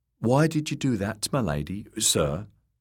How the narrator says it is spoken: asked Pod

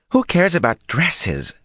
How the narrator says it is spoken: Susa Alcine exclaimed

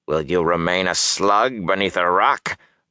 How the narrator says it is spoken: Balsamon snarled

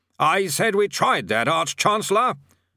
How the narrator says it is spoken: said the bursar loudly, directing his voice at the old man's ear

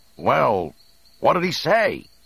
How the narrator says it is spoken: Han shouted with some concern

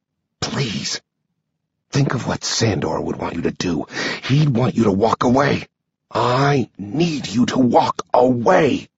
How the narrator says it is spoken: whisper

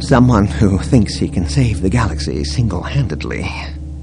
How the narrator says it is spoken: Leia mumbled

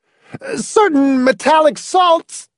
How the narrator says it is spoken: Hamilton screamed

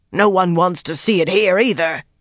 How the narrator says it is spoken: Donal spat

